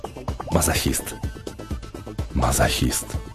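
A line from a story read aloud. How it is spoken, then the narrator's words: Whispered. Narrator (Russian): прошептав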